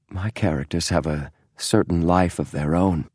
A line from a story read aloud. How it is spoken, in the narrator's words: he said softly